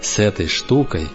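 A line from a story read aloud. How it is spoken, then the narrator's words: Quiet, disbelieving. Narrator (Russian): Тихо, как будто не веря, молвил он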